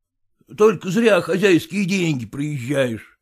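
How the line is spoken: Grumbling. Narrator (Russian): ворчал Зваров

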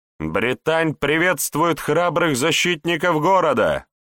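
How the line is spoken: Woman shouting from afar. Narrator (Russian): Еще издалека выкрикнула она

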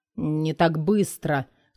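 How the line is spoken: Hissed through teeth. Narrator (Russian): Сквозь зубы шипит он

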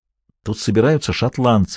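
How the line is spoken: Whisper. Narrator (Russian): шепнул он мне

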